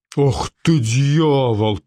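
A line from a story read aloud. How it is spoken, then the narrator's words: Growl. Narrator (Russian): прорычал Кинни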